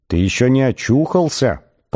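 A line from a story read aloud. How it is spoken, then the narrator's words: Firm inner voice. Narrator (Russian): продолжал он самым твердым внутренним голосом, на какой только был способен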